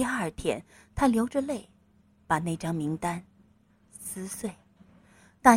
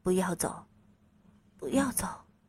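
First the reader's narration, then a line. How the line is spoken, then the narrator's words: Murmuring. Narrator (Chinese): 他喃喃地说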